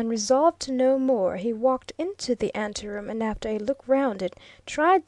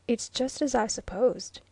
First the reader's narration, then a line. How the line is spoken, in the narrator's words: remarked quietly